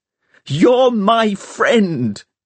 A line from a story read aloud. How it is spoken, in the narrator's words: he shouted